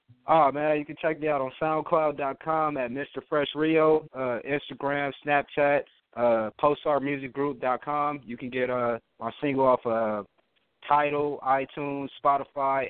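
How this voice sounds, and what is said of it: West Coast American accent. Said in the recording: “I don't know if it's like a California. I can hear the accent, your West Coast accent. ... I think that's just a regional thing. Like, that's just where you're from.”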